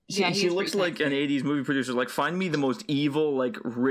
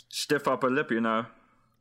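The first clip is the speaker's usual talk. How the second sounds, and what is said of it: Bad put-on English accent. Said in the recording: “That was my worst accent I've ever done. ... I still need to post it to just get some feedback on that accent from someone who actually does have, like, an English accent.”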